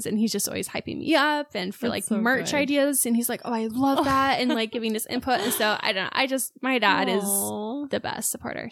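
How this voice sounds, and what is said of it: Tearful, emotional crying voice. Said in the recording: “Sorry to get emotional. Don't know why I'm crying.”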